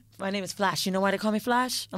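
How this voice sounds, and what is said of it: Imitated Jamaican accent, done well. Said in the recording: “Jamaican ... she got these accents down pat”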